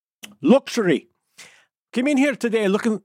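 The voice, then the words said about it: Put-on Scottish accent. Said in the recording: “Accent. ... Oh, that's gone straight into Scottish.”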